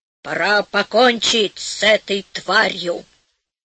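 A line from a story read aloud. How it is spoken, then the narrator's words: Muffled hollow voice. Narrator (Russian): Человек сказал глухим голосом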